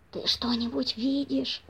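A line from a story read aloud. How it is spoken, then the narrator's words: Whisper. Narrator (Russian): прошептал хозяин, обращаясь к жене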